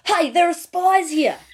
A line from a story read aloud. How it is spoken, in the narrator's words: One of them shouted